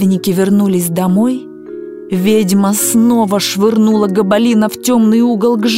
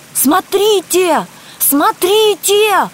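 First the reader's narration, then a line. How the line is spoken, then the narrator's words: Group shouting. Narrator (Russian): закричали они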